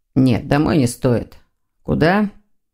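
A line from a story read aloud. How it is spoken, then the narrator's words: Desperate sigh. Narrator (Russian): Дамиан вздохнул в отчаянии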